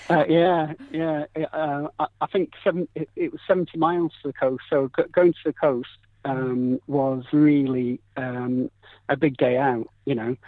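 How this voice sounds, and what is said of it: Yorkshire accent. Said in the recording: “I actually came from Yorkshire ... I really should have known by the accent.”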